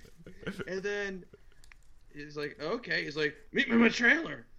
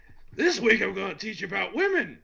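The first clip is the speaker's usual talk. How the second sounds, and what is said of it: Good imitation of another person's voice. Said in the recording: “quite a good Busey impression”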